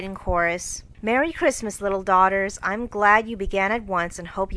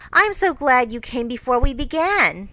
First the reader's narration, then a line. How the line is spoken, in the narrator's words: Joe exclaimed impetuously